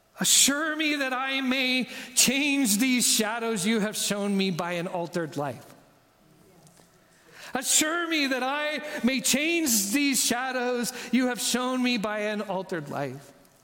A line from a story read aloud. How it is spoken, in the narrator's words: Scrooge desperately cries to the ghost of Christmas future